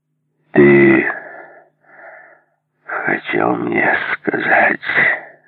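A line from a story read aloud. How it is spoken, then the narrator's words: Calm restrained. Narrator (Russian): заявил он совершенно спокойным и сдержанным голосом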